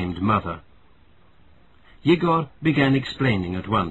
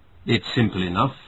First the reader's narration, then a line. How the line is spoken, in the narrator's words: answered Yegor